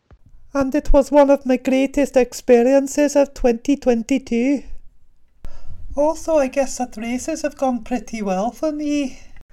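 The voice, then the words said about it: Put-on female Scottish accent. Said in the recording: “requested that their answers be read in a female Scottish accent”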